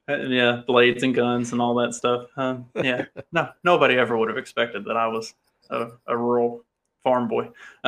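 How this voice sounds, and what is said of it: Rural accent. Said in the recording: “I grew up extremely rurally ... never would have figured it out from my accent”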